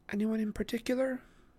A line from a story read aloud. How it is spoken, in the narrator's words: Annabeth asked, her voice soft